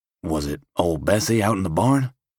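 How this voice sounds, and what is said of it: Whispering. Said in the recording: “Getting into character, I whisper”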